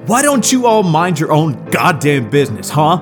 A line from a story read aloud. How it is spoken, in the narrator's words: shouted into the dark haziness of the bar